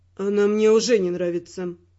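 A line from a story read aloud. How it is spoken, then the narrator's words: Gloomy. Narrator (Russian): мрачно сказал Родрик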